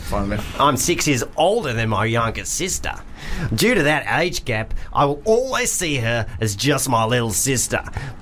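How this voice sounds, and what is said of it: Put-on Australian accent. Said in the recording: “I'm just going to do Australian because I don't really know what the difference is”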